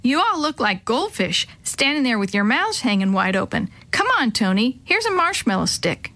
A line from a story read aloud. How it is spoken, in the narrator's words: Jake piped up